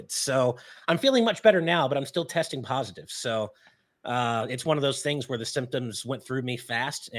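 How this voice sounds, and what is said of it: Slightly raspy voice. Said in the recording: “you can probably hear it in my voice a little bit as I'm still a little bit raspy”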